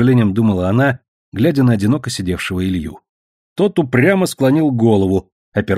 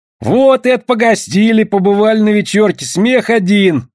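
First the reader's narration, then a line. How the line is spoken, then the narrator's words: Loud musing. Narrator (Russian): громко рассуждал Овчинников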